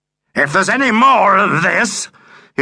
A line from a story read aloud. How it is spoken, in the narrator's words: his voice rose to a shocking, raucous yell